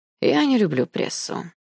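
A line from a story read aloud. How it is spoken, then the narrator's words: Young man sighing. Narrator (Russian): вздохнул молодой человек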